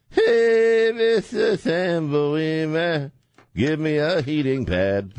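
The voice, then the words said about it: Imitates another person's voice. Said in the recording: “Great imitation. ... It's spot on.”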